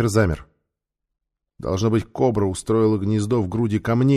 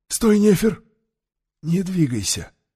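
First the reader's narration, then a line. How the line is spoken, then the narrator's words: Calm but quick. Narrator (Russian): Таита сказал спокойно, но быстро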